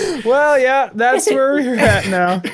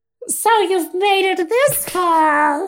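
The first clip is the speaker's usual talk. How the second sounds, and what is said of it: Character voice for a snake creature. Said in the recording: “do a voice for it? ... That's the voice we're doing, folks.”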